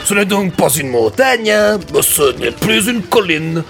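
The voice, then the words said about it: Put-on Belgian French accent. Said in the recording (French): “je fais l'accent en belge”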